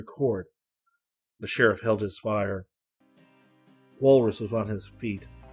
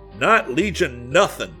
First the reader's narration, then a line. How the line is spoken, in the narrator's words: Sheriff Cook's shout topped that of Walrus